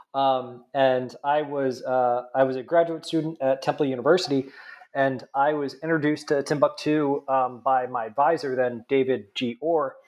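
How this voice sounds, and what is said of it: Nasal New Jersey accent. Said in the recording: “I'm originally from New Jersey, if you can't tell by my nasally accent.”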